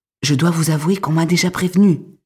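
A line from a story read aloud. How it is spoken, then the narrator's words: Whispered. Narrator (French): chuchote Marie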